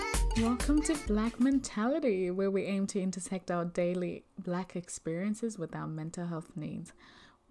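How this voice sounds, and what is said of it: Sultry, low, breathy voice. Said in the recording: “doing this really sultry voice,”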